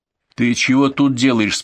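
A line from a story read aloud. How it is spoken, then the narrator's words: Stern question. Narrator (Russian): спросил строго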